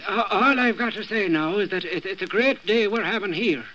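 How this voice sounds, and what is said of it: Put-on Irish accent. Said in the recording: “Well, that's Irish.”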